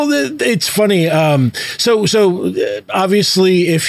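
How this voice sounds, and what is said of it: Usual voice. Nothing is said of it.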